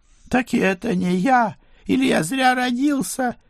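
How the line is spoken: Squealed, near tears. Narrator (Russian): Едва не плача взвизгнул он

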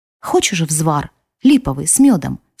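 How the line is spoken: Plain. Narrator (Russian): спросила я

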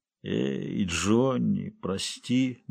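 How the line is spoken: Muttered apology. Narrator (Russian): бормотал Серджио

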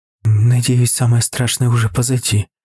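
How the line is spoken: Sighing. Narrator (Russian): вздохнула моя тетя

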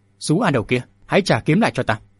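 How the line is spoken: Angry loud shout. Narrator (Vietnamese): Cửu Lão Lão cầm tức quát to

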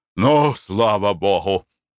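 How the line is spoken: Exclaiming. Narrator (Russian): воскликнул Николай Иванович

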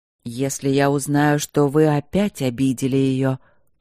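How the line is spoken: Quiet growl. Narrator (Russian): прорычал он тихо

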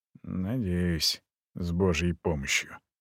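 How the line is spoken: Muttered. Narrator (Russian): пробормотал приятель

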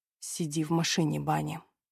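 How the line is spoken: Gentle request. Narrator (Russian): мягко просит Кэмерон

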